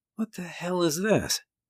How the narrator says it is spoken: I mumbled

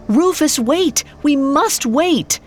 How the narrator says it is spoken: He cried out

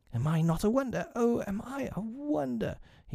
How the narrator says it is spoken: he whispered to her

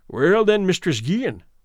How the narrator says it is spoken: said he

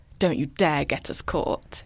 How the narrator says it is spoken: hissed

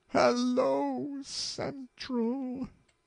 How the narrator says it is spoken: she gasped, almost inaudibly

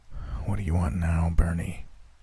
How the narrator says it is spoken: asked with a heavy sigh

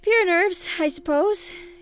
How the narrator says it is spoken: he said aloud with a forced laugh

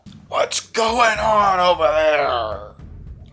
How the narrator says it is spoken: it bellows from behind this large stone tower

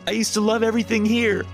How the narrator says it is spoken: I screamed

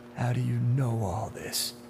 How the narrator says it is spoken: Duane asked, his voice little more than a murmur

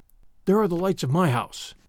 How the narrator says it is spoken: he murmured

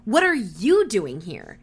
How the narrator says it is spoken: Cherokee snapped

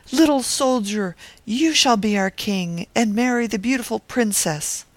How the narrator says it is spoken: the people cried

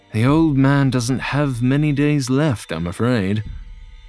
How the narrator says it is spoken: John sighed and admitted

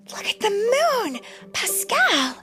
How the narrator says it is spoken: Rapunzel exclaimed

